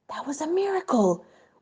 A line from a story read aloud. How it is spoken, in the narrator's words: whispered one of the rabbis to the Rebbe